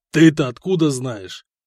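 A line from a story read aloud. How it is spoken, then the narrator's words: Growling. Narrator (Russian): прорычал Самослав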